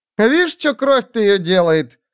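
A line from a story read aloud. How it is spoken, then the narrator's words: Shout. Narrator (Russian): крикнула первая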